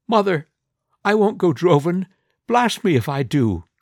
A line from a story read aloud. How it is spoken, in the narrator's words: exclaims